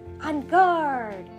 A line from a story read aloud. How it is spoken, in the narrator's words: Corinne cried